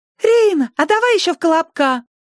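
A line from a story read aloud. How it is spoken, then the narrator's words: Squeak. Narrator (Russian): пискнул кто-то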